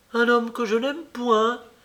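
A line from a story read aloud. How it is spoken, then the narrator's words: Exclaimed. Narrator (French): s'écria-t-elle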